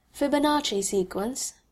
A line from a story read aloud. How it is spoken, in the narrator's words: asked